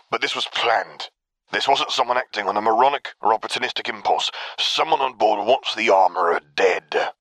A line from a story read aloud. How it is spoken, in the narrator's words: the trooper retorted irritably